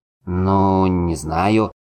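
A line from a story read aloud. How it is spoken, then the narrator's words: Confused drawl. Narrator (Russian): растерянно протянул Дуэнд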